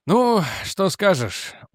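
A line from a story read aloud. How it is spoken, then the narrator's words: Tired, smiling. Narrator (Russian): устало улыбнулся Реджи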